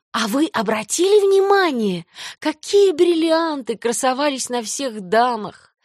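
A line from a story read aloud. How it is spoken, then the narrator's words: Sighing. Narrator (Russian): вздохнула Джейн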